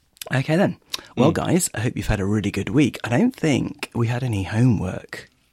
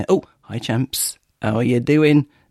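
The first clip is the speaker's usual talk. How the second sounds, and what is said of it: New York accent impression, slightly Yorkshire. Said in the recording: “My Joey impression ... It's slightly Yorkshire ... New York accent”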